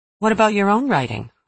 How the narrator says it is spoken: a few people sometimes asked me kindly

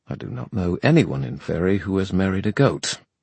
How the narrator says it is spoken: he said irritably

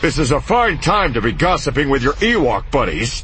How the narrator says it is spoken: Han grumbled

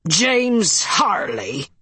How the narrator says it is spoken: a disembodied voice thundered

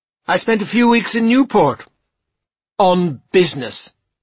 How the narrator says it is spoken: he added, dramatically

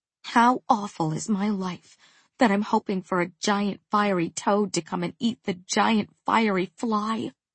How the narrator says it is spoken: she muttered

